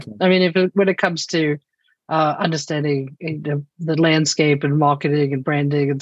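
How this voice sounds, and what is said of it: South African accent. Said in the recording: “you're from South Africa, right? ... That is the accent you're hearing. I am originally from South Africa”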